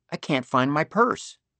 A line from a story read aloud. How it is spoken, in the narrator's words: she said